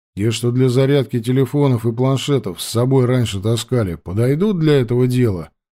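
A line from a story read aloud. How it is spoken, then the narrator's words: Plain. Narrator (Russian): спросил я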